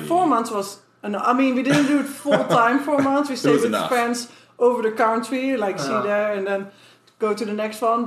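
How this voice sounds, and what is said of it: Foreign accent. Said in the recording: “you're not from here. You have an accent.”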